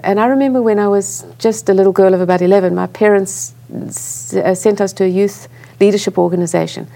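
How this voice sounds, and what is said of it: South African accent. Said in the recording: “I grew up in South Africa. You can hear I have an accent.”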